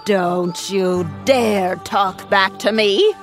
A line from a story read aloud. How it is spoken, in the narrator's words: the wicked woman shouted